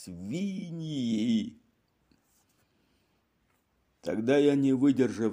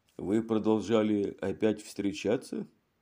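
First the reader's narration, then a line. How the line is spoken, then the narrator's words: Plain. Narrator (Russian): спросил Мегре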